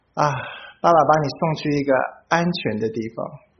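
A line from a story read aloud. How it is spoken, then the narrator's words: Father sighing. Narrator (Chinese): 我爸爸就叹一口气，他跟我说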